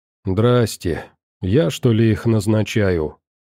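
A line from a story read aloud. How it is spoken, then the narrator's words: Weary middle-aged woman. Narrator (Russian): Устало отмахнулась средних лет женщина-оператор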